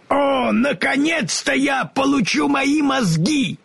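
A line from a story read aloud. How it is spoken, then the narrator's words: Excited shout. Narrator (Russian): крикнул Страшила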